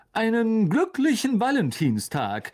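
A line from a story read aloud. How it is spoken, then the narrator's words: Shouted. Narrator (German): rief Lockhart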